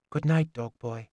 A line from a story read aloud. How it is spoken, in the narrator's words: she said softly